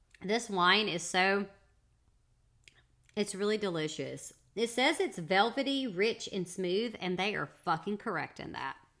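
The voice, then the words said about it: Country accent, slightly stuffy voice. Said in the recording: “I feel a little stopped up and I'm hoping that I don't sound terrible... I'm still going to sound country.”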